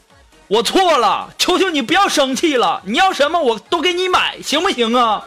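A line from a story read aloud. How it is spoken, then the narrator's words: Loud yelling. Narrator (Chinese): 大声的对你的女朋友吼，说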